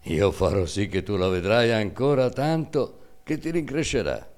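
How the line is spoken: Laughing, willing. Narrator (Italian): Ruggeri, ridendo, disse volentieri

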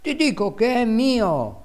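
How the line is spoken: Exclaimed. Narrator (Italian): esclamava

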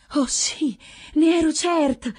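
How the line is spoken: Exclaimed. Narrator (Italian): esclama Bradamante a occhi chiusi

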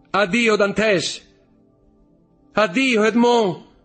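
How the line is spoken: Shouted farewell. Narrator (Italian): gridava Mercedes

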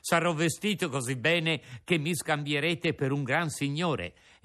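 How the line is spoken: Laughing. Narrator (Italian): soggiunse ridendo

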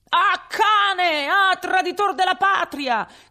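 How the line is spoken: Furious shout. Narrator (Italian): gridò ... con un viso da indemoniato, un di coloro che avevano potuto sentire tra il frastuono quelle sante parole

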